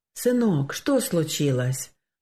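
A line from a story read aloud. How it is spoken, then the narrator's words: Gentle question. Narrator (Russian): ласково спросил отец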